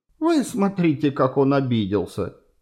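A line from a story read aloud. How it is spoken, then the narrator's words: Laughing. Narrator (Russian): засмеялась она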